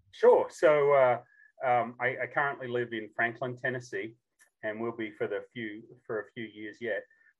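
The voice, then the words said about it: Unique non-American accent. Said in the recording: “has a unique accent for somebody who lives in Tennessee”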